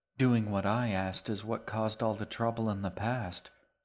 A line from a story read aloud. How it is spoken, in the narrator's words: she said with a sigh